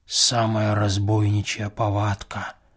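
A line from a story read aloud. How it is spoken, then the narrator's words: Whisper. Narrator (Russian): прошептал Филофей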